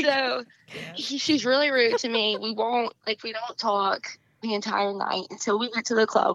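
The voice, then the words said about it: Southern US accent. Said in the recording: “I love your accent. ... so cute ... move down south”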